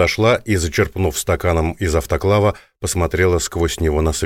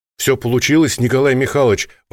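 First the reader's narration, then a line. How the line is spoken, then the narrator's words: Delighted exclamation. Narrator (Russian): воскликнула восторженно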